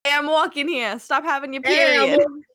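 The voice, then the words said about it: Exaggerated put-on New York accent. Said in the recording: “super New York ... That's like super New York”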